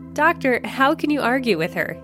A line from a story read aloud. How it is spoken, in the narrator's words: giggles